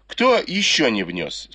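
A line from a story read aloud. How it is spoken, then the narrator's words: Plain. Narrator (Russian): спросила госпожа Ю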